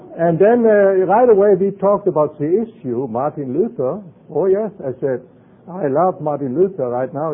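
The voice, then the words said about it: German accent. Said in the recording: “My accent says I wasn't born here... we are Americans made in Germany”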